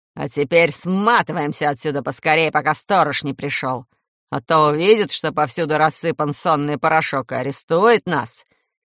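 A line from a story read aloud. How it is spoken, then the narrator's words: Deep bass voice. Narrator (Russian): пробасила Манефа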